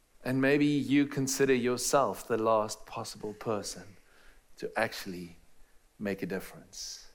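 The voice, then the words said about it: Strong foreign accent. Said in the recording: “somebody with a strange, strange accent from a far, far way away”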